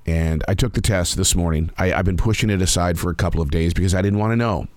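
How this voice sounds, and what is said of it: Hoarse, nearly lost voice. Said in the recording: “My voice is nearly gone. ... I've got a really super deep cough”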